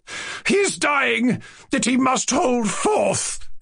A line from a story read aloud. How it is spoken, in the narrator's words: cried Lizaveta Prokofievna